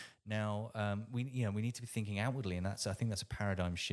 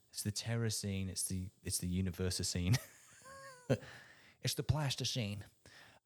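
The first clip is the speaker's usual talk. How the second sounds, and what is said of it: Poor George Bush impression. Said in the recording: “That was a terrible George Bush impression.”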